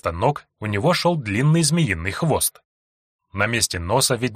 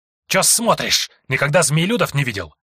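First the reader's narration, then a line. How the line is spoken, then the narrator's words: Snapping half-human. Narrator (Russian): Огрызнулся получеловек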